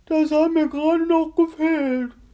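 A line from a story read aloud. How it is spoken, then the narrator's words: Pained groan. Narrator (German): stöhnte Grisby gequält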